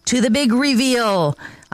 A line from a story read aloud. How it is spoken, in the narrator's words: shouted